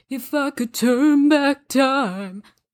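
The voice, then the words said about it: Imitates another person's singing voice. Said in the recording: “That was my Cher impersonation.”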